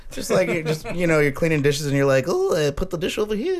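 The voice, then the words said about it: Silly put-on voice. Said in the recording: “What do you mean silly voice? ... the one you're using right now.”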